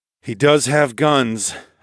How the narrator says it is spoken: I sighed

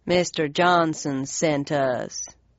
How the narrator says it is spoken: One of the men answered in a low southern drawl

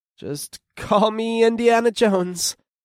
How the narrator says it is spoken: I chuckled nervously

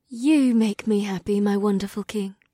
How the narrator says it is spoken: the white-haired woman sighed

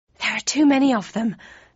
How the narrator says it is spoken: panted Snake

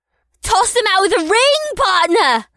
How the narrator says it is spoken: Amrila screamed from the sidelines

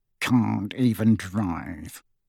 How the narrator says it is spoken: he muttered under his breath, his moustache rippling indignantly

